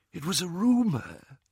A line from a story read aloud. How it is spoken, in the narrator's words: whispered Ollivander